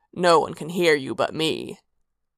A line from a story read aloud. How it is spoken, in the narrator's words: he growled